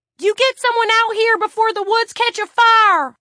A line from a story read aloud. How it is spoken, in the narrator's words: Tiffany screamed this so loudly